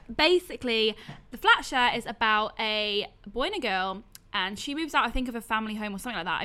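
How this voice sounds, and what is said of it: Welsh accent. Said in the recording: “my accent ... Welsh accent”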